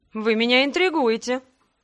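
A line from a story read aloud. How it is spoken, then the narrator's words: Laughing. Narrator (Russian): рассмеялся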